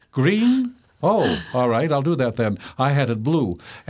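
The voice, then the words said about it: High-pitched pompous character voice. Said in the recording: “had a voice that was up here like this and had a slight New York or maybe it was even a British accent, but he was very, very pompous”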